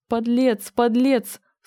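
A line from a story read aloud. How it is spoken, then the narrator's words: Sobbing, choking on tears. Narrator (Russian): всхлипнула молодая женщина и давилась слезами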